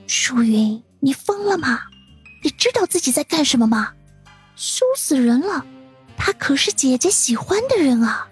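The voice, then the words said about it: Quiet, murmured talking to herself. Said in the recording (Chinese): “小声的自语道”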